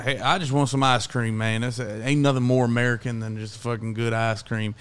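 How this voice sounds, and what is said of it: Put-on American cowboy accent. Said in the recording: “dressed up like a cowboy ... talked in the fucking accent”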